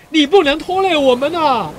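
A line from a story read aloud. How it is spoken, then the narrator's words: Loud shout. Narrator (Chinese): 兰奈德大叫着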